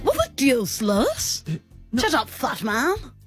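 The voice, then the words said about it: Cartoon character voice impression. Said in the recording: “the Stewie impression ... I've been doing the Stewie accent. ... And you're very good at it. ... You definitely don't undercommit.”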